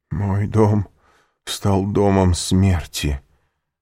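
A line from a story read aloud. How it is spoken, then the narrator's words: Groan. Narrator (Russian): простонал Вильфор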